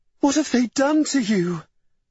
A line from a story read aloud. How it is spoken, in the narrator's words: Eleanor wailed